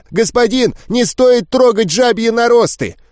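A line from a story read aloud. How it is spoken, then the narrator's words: Breathless near-shout. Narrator (Russian): Почти выкрикнул запыхавшийся дрог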